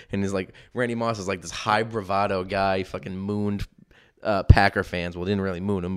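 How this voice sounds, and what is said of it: Usual voice. Nothing is said of it.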